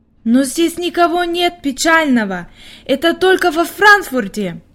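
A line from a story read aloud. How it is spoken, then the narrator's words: Exclaiming. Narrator (Russian): воскликнула Хайди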